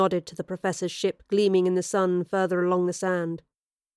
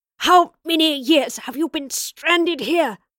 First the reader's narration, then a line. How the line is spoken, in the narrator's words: She asked through gritted teeth